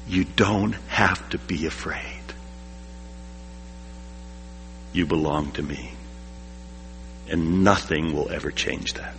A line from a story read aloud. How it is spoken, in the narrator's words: God is like that mother, ever present in the darkness, whispering to us